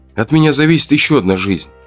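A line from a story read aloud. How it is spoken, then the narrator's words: Calm, hiding nerves. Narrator (Russian): сказал я спокойно, стараясь не выдавать собственного волнения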